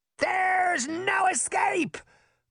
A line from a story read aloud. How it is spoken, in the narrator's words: Puck shouted to the girls